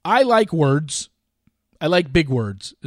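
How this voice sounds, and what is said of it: Imitates another person's voice. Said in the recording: “Is that my Olivia Caridi impersonation?”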